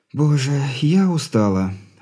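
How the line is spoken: Breathless exhale. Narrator (Russian): выдохнула Алина

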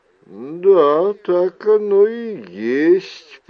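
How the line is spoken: After a short pause. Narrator (Russian): промолвила она после небольшой паузы

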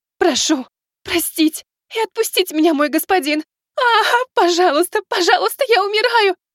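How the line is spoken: Sobbing in pain. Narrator (Russian): Она уже рыдала от боли

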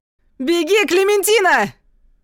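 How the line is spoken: Yelling. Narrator (Russian): вопит Луис

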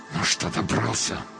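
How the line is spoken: Angry hiss through teeth. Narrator (Russian): зло прошипел сквозь зубы человек

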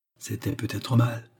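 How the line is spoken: Quiet. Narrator (French): dit Oliva tout bas

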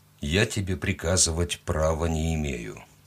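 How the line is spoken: Quiet. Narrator (Russian): тихо сказал он

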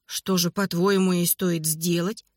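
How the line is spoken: Plain. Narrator (Russian): спросила Анна

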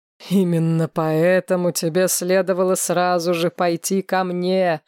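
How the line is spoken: Laughing necromancer. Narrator (Russian): рассмеялся некромант

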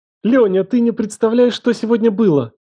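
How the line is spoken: Excited exclamation. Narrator (Russian): Воскликнула она взволнованно

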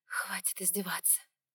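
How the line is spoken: Breathy exhale. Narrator (Russian): выдохнула я

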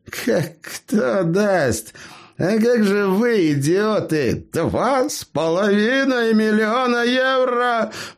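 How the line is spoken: Growling, worked up. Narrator (Russian): прорычал Савелий, заводясь вновь

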